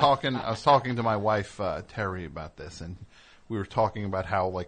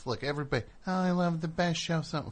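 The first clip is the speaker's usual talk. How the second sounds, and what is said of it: Mocking impression of a show fan. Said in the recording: “I'm sorry I'm doing that impression of fans on my show”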